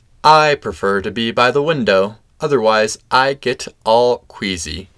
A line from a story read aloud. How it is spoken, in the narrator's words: said Groundhog